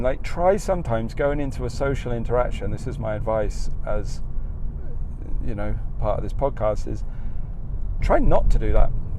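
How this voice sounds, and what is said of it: Australian accent. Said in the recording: “I can't hide mine in this country because as soon as I chat eh, with someone and they hear my accent in this country, they know I'm from Australia”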